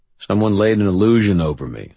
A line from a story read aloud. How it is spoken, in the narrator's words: I said